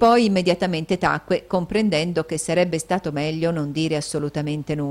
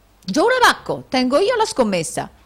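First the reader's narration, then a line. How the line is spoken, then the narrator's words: Foolish nobleman exclaiming. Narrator (Italian): esclamò il nobile allocco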